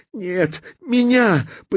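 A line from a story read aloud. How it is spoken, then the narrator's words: Sobbing. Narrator (Russian): всхлипнул скворец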